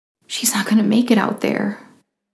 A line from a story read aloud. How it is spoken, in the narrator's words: Ariel sobbed